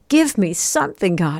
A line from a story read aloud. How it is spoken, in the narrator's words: I cried